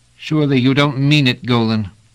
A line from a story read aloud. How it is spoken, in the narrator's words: said Pellerat urgently